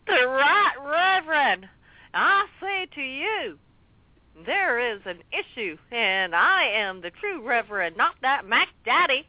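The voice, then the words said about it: Hillary Clinton impression. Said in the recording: “Are you trying to do a Hillary accent?”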